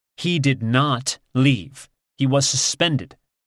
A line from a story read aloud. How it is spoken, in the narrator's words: Assange says in a scolding tone